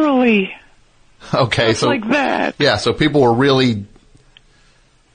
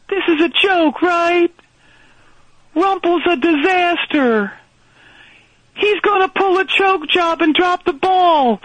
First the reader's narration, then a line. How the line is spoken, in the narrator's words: people were yelling stuff like